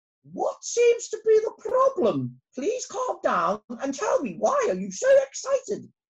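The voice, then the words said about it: Regal, queenly character voice. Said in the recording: “She said in a very queenly voice.”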